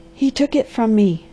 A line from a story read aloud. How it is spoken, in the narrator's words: she panted